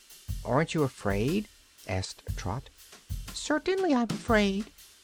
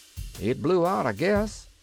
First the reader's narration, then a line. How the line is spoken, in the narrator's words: shouted Cap'n Bill